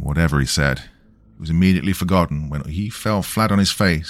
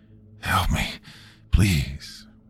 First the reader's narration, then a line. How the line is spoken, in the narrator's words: He groaned again, faintly